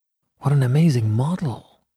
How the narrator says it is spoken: whispered Huey

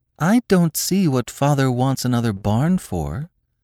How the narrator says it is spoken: said the girl, in her sweet, slow voice

